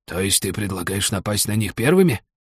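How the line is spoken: Thoughtful whisper, old man. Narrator (Russian): задумчиво прошептал старик

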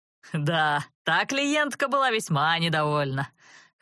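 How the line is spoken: Chuckling dragon. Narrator (Russian): хохотнул дракон

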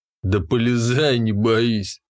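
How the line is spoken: Smirking snort, dandy. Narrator (Russian): хмыкнул модник

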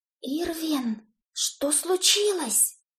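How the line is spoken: Frightened whispered question. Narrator (Russian): шепотом спросила я, холодея внутри

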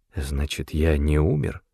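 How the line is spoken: Quiet question. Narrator (Russian): тихо спросил Доуэль

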